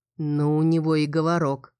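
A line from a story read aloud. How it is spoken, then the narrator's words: Through gritted teeth. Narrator (Russian): процедил Лодин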